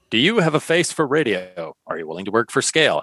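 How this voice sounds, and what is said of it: Put-on radio announcer voice. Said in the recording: “read it in my radio voice”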